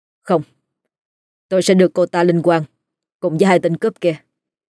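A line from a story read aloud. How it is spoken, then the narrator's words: Cold contemptuous voice. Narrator (Vietnamese): anh khinh bỉ, rồi lạnh lùng nói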